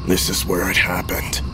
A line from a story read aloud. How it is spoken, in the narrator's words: said softly, almost lost beneath the cacophony of the radio and the rattling car